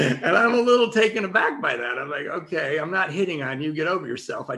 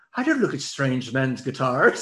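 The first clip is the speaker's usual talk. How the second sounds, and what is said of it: Imitated British woman's accent. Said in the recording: “she apparently was British ... really cute accent”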